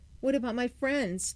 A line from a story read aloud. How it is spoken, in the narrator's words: Timmy wailed